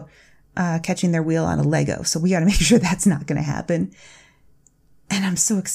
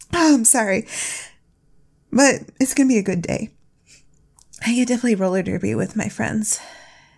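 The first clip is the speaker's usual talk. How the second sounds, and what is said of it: Emotional, choked-up voice. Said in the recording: “I'm getting a little emotional now”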